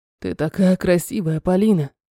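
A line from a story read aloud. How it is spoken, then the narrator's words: Hoarse. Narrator (Russian): Хрипит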